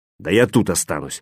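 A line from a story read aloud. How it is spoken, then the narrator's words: Snapping back. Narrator (Russian): огрызнулся Веня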